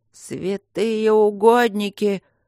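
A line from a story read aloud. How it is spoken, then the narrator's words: Frightened babble. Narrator (Russian): пролепетал фермер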